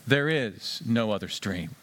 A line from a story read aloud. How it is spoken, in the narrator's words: said the lion